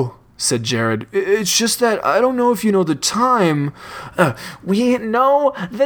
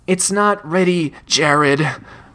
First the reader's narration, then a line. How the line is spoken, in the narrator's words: Richard breathed